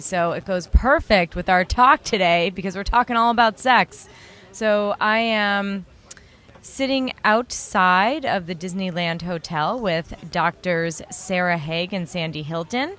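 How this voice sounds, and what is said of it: Slightly raspy, husky voice. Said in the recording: “If you can't tell by the sound of my voice, that's a little raspy and a little sexy.”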